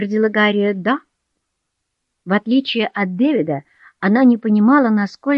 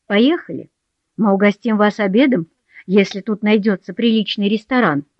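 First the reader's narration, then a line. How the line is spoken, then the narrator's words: Plain. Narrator (Russian): сказала мать Дэвида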